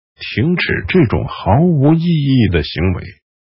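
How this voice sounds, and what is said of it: Firm, commanding old wizard voice. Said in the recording (Chinese): “老法师用坚定、无法抵抗的声音说”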